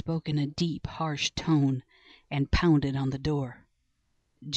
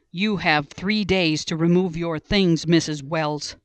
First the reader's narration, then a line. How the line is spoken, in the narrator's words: he yelled